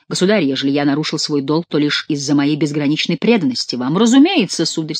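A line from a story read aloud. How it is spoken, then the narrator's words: Plain. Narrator (Russian): сказал Генрих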